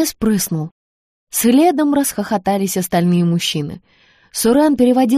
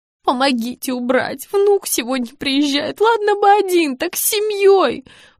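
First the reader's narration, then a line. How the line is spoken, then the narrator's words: Pleading. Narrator (Russian): Взмолилась Валенка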